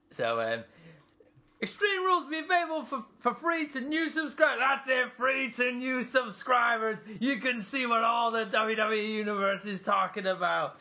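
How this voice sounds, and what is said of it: Bad imitation of another person's voice. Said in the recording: “my really bad JBL impression”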